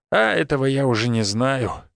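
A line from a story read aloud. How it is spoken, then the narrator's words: Sigh. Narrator (Russian): вздохнул Степан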